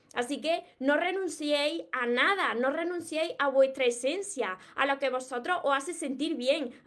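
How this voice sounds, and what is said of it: Andalusian Spanish accent from Córdoba. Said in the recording (Spanish): “yo soy de, del sur de España, de Andalucía, y precisamente soy de Córdoba. Por eso tengo este acento ... mi acento de aquí, de mis raíces, de Córdoba, de Andalucía”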